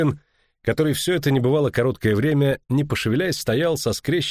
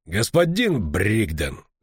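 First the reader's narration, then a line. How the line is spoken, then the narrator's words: Cold. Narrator (Russian): холодно сказал Стефан Скеллен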